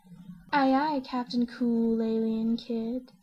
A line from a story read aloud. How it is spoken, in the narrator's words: she purrs